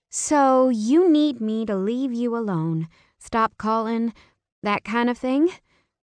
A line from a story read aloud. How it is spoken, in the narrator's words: Her voice broke